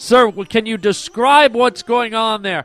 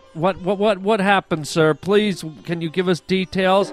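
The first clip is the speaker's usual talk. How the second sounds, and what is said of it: Nervous stuttering speech. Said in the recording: “Why are you stuttering?”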